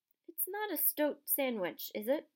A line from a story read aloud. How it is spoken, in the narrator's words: said Harry anxiously